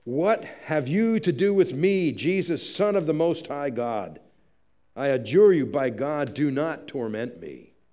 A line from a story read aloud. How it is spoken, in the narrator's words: crying out in a loud voice, he says